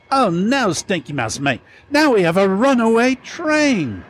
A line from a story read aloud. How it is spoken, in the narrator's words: Ernie the Engineer yelled